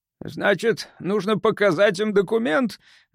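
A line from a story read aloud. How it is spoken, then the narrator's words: Gloomy. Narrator (Russian): мрачно проговорил он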